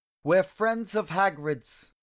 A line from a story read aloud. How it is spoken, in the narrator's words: Harry shouted